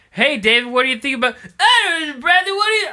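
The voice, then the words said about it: Imitates another person's voice. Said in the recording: “doing a David impression, even though it's not even a really good David impression.”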